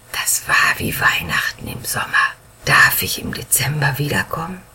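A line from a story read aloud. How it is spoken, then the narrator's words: Boy whispering. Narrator (German): Der Junge flüsterte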